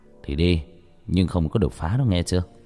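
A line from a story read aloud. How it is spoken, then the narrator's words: Sighing. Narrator (Vietnamese): Cha thở dài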